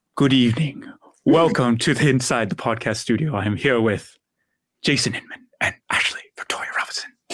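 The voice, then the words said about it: James Lipton impression, dramatic pauses. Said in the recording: “doing a James Lipton impression ... We're all the dramatic pausing.”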